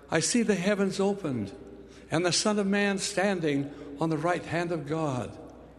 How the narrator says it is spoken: Stephen, doomed to the cruel death of a martyr, looked up to heaven and cried

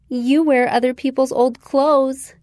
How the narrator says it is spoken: Jenny said, laughing with her friends

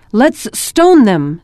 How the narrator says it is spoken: someone shouted

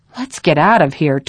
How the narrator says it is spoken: Todd said, looking around nervously

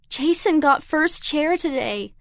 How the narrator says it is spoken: I sobbed

